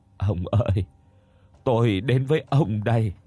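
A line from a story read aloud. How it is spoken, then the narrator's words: Old woman, trembling, grieving. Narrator (Vietnamese): Thương cho thân phận, bà run rẩy nói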